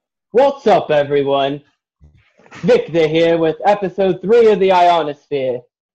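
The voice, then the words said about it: Imitates another person's voice. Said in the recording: “Let me do the James thing. ... That's as far as my impression goes.”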